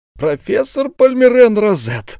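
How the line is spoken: Exclamation. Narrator (Russian): воскликнул он

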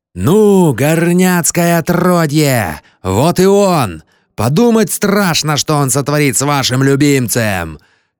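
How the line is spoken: Joyful group yelling. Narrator (Russian): Ковбои радостно завопили

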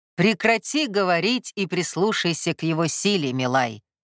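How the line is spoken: Stern scolding. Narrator (Russian): строго отчитал вставший царь

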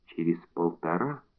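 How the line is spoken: Soft and ingratiating. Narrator (Russian): Мягко и вкрадчиво Мулин отвечал

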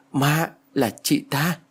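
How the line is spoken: Stammering. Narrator (Vietnamese): Tôi lắp bắp nói

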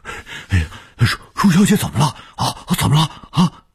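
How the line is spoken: Urgent anxious speech. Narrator (Chinese): 卢老头急切地说

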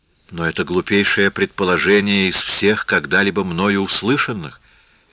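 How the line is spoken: Calm. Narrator (Russian): спокойно сказала Лис

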